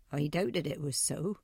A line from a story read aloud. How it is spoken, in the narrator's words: said Mr